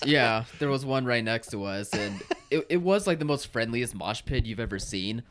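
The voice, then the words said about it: Hoarse, worn-out voice. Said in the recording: “My voice is gone.”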